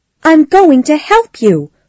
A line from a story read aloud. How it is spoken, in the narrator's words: she said angrily